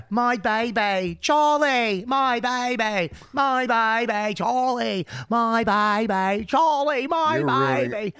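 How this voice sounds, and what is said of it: Mock Australian accent. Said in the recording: “Australian accent for me, too... That's the accent?”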